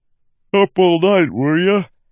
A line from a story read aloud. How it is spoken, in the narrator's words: Wayne asked with a yawn